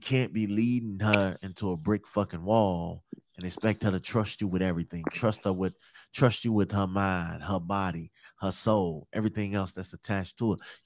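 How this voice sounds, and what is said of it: Chicago accent. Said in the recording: “you got a Chicago accent ... I'm from Chicago ... I just heard it”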